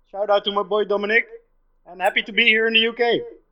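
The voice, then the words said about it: Dutch accent. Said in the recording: “I'm representing the Netherlands, if you might hear from my accent.”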